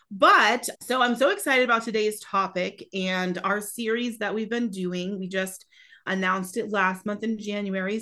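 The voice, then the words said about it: Raspy, scratchy voice. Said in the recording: “I'm fighting a little bit of a cold ... my voice is a little raspy ... my voice sounds a little scratchy today”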